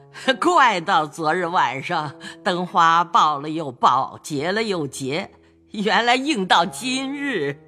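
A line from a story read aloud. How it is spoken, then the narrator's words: Sinister laugh. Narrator (Chinese): 贾母阴笑道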